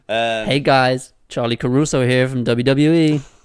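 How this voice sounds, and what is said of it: Imitates a news anchor TV voice. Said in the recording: “She's very she's got the definition of like a news anchor voice ... She's a news TV voice ... my Charlie Caruso impression ... it wasn't the best ... that instant kind of like, yep, that's a TV voice”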